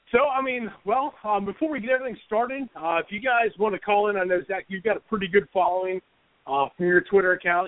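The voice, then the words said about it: Raspy voice from a cold. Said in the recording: “excuse my voice. I'm coming off of a nice little cold, so if I sound a little raspy”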